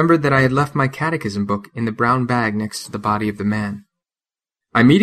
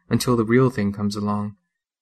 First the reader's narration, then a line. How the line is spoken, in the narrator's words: softly singing